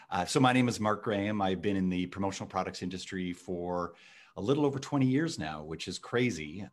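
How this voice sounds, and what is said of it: Canadian English accent. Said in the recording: “You can tell from my accent that I am from Canada.”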